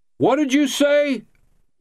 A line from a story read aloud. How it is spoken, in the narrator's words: he yelled